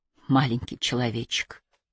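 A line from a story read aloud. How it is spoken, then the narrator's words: Whisper. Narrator (Russian): прошептала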